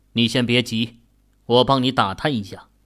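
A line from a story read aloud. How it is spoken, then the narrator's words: Deep grave voice. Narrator (Chinese): 秦宇沉声道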